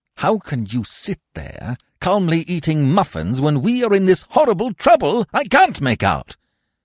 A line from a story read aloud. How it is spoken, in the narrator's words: Jack said through his teeth